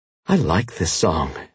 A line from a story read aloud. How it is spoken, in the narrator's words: Phoebe said breathlessly